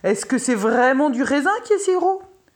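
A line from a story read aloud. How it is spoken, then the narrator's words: King crying out. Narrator (French): s'écria le roi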